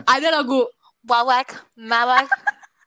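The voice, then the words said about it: Put-on Western foreigner accent. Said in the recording (Indonesian): “Sorry itu aksen bule.”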